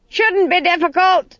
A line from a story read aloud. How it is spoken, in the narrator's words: screamed Granny above the noise of the wind